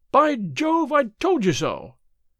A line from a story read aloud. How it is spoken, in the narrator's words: cried the clerk